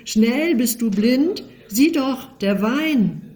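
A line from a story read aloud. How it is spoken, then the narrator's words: Boy crying out. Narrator (German): Der Junge schreit auf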